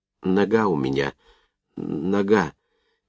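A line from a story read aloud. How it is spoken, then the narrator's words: Barely audible whisper. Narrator (Russian): Проговорил еле слышным шепотом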